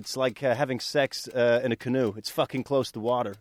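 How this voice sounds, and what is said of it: Good put-on American accent. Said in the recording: “A good American accent”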